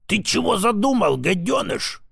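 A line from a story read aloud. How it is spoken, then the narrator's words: Hiss. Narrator (Russian): прошипел он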